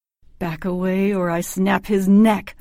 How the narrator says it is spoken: I growled

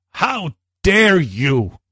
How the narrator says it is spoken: she yelled

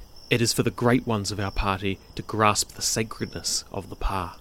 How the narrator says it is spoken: The slave whispered

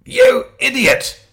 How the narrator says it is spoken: he shouted

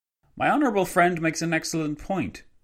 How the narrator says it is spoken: Antonio Mora, the Spanish Premier, exclaimed

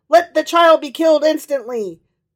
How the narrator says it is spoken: Caesar was enraged and cried out

